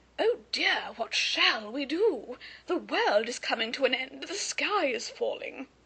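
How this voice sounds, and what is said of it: Very silly put-on accent. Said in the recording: “taken over by a very silly accent.”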